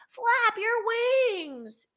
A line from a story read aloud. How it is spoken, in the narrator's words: yelled Mr